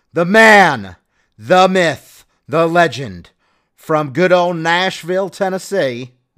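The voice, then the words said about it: Put-on Southern American accent. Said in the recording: “That was my southern accent. Hopefully, I thought it was pretty good.”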